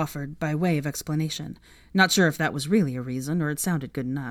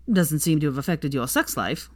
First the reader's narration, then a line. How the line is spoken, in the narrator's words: Theo said dryly